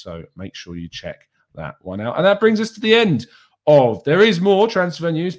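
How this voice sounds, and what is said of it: Hoarse, croaky voice. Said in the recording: “my voice is already sounding a bit like a frog ... a bit of a frog in his throat”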